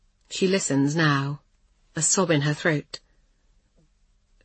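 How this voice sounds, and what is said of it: Usual voice. Nothing is said of it.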